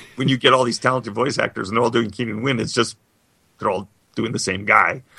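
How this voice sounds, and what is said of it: Usual voice. Nothing is said of it.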